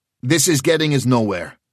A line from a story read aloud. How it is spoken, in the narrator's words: he said sharply